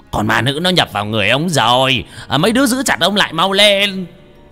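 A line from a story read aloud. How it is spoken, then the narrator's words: Shouting. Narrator (Vietnamese): thầy phù thủy hét lên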